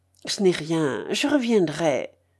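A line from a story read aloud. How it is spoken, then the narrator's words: Dazed stammering murmur. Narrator (French): balbutia-t-il à demi-voix, comme un homme qui n'a pas pleinement conscience de ce qu'il dit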